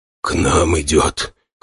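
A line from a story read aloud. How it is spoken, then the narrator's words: Hoarse warrior remark. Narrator (Russian): хрипло заметил воин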